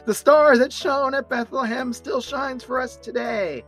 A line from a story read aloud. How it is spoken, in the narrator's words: Linus shouts out